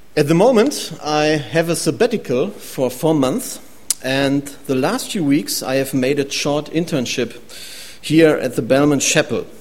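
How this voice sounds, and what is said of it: German accent in English. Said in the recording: “Normally, I live and work in Germany. You can hear it in my accent.”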